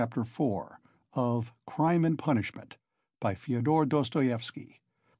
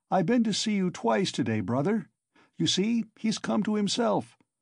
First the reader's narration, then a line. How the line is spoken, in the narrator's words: cried Razumihin